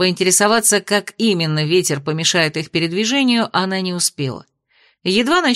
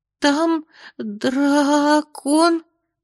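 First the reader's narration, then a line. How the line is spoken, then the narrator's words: Trembling small voice. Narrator (Russian): дрожащим голоском сообщила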